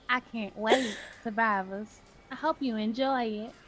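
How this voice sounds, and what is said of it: Put-on Southern accent. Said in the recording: “Y'all gonna get this accent all episode long... Anybody who's truly Southern, I'm sorry. It's gonna get on y'all motherfucking nerves. And yes, I done perfected it”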